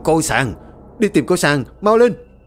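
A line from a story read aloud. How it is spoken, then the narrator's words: Terrified, trembling shout. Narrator (Vietnamese): Lão Nhiên sợ điếng người, run rẩy quát to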